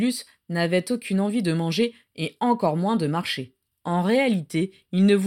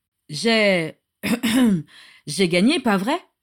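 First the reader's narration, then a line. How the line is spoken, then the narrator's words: Hoarse question. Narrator (French): demanda-t-il d'une voix rauque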